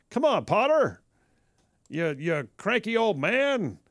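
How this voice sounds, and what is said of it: Jimmy Stewart impression. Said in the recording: “my next voice career needs to be impersonations of Jimmy Stewart ... Especially when he's confronting Mr. Potter and It's a Wonderful Life”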